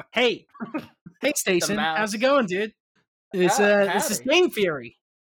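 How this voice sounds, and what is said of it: Imitates another person's voice. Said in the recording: “Oh, that's your MatPat impression.”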